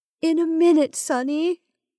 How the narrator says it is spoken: Melissa said in a sobbing voice

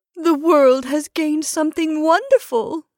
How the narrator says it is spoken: she exclaimed between her sobs

